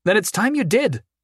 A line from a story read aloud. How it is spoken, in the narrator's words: Dawn barked